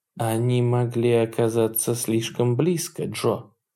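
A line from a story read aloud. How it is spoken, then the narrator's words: Quiet speech. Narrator (Russian): тихо сказала Хонор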